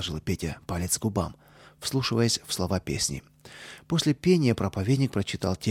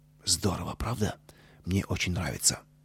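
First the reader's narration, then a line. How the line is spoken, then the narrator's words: Whispered. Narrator (Russian): Костя шепнул Пете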